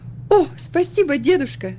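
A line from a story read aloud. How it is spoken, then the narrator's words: Joyful reply. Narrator (Russian): радостно ответила она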